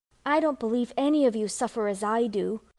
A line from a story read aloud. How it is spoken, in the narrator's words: cried Amy